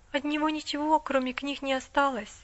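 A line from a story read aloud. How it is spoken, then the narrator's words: Timid. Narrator (Russian): робко сказала миссис Мёрфи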